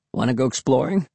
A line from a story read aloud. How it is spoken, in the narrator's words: he asked in his hoarse voice